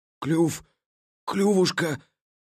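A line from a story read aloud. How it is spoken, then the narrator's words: Hoarse wheeze. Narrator (Russian): Просипел он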